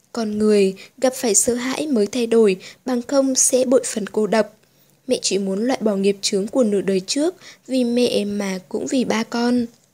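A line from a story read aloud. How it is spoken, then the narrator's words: Soft, quiet voice. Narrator (Vietnamese): nói khẽ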